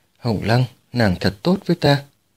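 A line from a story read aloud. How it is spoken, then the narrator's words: Soft murmur. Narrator (Vietnamese): khẽ bảo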